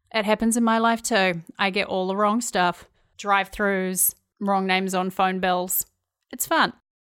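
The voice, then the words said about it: New Zealand accent. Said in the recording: “I hope you enjoy my Kiwi accent ... their outrageous accents”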